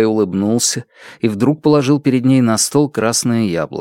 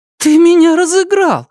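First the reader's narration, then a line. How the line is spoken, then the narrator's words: Exclaimed. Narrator (Russian): воскликнула она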